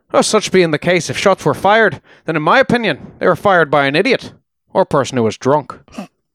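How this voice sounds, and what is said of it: Poor put-on Irish brogue. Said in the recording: “Apologies to our Irish listeners. ... I'm sure that's a slaughtered accent. ... it's as good as anything on Titanic. ... it's a slaughtered brogue.”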